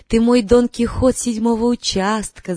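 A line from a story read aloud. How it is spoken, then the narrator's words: Laughing. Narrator (Russian): засмеялась Ася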